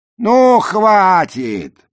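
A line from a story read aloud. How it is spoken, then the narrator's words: Shouted. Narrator (Russian): прокричал Нед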